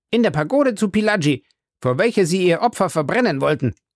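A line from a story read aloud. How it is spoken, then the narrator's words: Impetuous call. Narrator (German): rief Passepartout ungestüm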